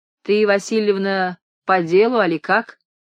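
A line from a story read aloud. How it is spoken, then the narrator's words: Stern question. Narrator (Russian): строго спросил Арсентий Васильевич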